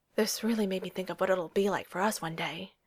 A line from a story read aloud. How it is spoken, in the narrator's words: he'd gasped out